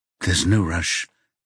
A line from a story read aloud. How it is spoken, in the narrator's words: Eric mumbles